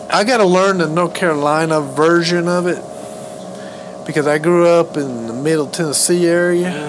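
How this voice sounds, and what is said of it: Tennessee Southern American accent. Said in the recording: “I'm probably more of a Tennessee accent”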